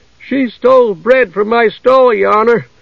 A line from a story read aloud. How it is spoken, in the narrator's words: cried the baker